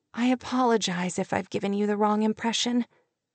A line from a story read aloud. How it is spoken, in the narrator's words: she said, her voice feeble